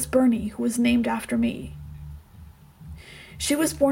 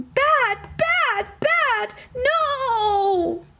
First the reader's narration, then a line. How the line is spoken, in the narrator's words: scream